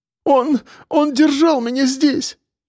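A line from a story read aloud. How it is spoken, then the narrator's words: Sobbing. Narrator (Russian): рыдала Катя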